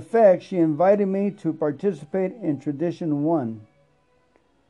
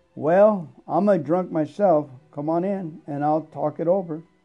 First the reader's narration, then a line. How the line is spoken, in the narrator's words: smiled and said calmly